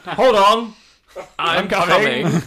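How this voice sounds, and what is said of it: British accent. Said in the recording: “Which sounds weird in a British accent.”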